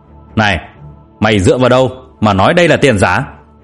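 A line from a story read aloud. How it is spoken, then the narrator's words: Big boy roaring. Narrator (Vietnamese): Có một cậu trông to lớn đang gầm lên với Thu Thu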